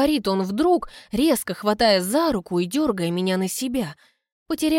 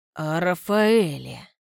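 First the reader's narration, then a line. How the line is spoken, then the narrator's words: Low vibrating voice. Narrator (Russian): поясняет низким вибрирующим голосом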